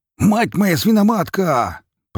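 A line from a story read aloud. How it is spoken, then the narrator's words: Pig shouting. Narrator (Russian): прокричал свин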